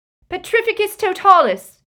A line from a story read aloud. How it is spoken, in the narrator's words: screamed Hermione from out of sight